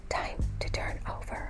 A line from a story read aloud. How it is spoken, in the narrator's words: softly whispered